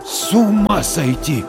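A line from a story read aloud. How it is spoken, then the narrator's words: Stunned exhale. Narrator (Russian): ошарашенно выдохнул Дворкин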